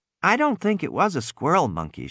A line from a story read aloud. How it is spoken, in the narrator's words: she said